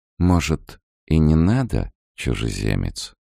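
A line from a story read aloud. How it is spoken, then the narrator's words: Sighing. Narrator (Russian): вздохнула она наконец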